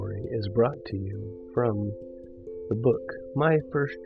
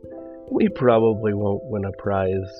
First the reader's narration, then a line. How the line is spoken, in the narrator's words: giggled the twins